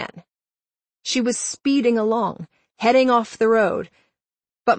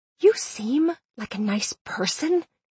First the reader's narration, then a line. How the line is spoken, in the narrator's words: Indigo hissed